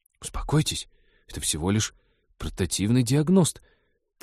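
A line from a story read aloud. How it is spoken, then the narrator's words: Hurried speech. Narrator (Russian): торопливо заговорил мужчина с безопасного расстояния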